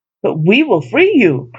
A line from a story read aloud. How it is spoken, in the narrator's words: cried the gods